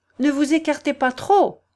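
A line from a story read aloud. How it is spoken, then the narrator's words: Shouted. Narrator (French): cria Marianne aux enfants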